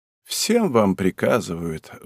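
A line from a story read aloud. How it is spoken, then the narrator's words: Sighing. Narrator (Russian): вздохнула она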